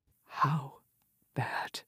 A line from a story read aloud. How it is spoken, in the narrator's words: She asked, her voice little more than a whisper